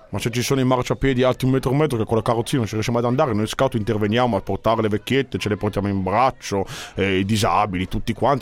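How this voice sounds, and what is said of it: Non-Lombard accent with distinctive R. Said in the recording (Italian): “con quell'accento lì, con quella R lì, a me non mi sembra mica lombardo”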